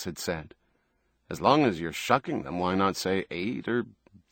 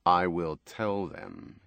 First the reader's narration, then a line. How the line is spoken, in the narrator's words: he had told her grimly